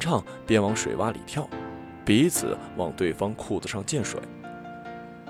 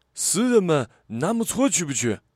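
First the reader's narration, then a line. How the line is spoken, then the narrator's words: Laughing. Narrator (Chinese): 他笑着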